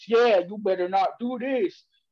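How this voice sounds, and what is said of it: Imitates another person's voice. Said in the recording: “whose voice are you doing ... you're doing another person's voice ... I felt like that was a terrible impersonation.”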